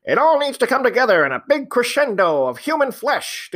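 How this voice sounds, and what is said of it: 1920s American announcer voice. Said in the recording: “my announcer voice ... my totally inappropriate announcer voice ... I love doing the like 1920s American announcer instead of trying to do the accent”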